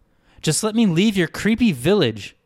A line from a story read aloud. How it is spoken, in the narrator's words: screamed Wren